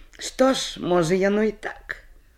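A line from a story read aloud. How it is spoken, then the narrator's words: Sighing. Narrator (Belarusian): уздыхнула белянка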